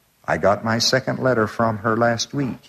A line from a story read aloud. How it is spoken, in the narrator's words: he said